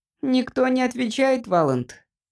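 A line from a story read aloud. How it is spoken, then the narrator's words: Squeaky voice. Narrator (Russian): пропищал Джимпер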